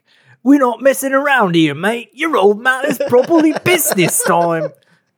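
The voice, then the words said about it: Salty British Cockney sailor accent. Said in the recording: “I definitely read that in like a salty British accent in my head. ... It's like some sort of Cockney sailor is like yelling at him.”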